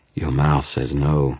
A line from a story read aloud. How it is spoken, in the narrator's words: she purred